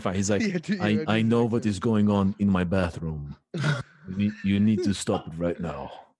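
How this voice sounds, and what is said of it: Imitates another person's accent. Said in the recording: “you gotta do his accent though”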